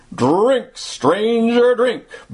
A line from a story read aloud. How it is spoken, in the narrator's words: boomed Deacon White